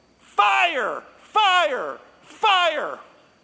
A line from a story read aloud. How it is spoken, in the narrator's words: Mom take a breath of air, and she yells